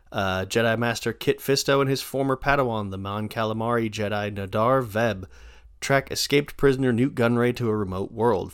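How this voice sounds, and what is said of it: Announcer voice. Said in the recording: “do the announcer voice”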